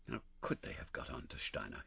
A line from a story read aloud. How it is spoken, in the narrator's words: he muttered